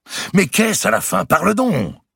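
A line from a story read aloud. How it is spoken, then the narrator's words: Exclaimed. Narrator (French): s'écria Mao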